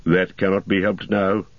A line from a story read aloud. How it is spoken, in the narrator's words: said Gandalf